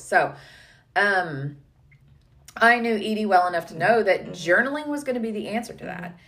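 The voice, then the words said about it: Hoarse, fading voice with throat clearing. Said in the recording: “throat clearing stuff... if I don't do it, you are not going to hear my voice at all cuz I'm losing my voice... I am dying with allergies over here”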